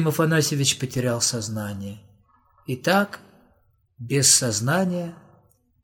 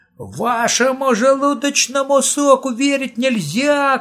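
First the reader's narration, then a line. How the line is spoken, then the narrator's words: Shouting. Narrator (Russian): кричал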